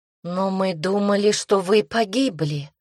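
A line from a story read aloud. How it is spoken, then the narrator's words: Breathless exhale. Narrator (Russian): выдохнула Лина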